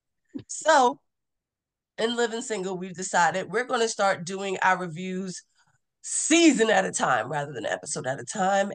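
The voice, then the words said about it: Congested, stuffy voice. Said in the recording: “I'm more congested than usual, so excuse my voice... I really can't sing today”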